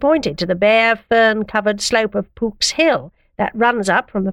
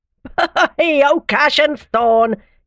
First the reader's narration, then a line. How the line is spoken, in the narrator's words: cried, still laughing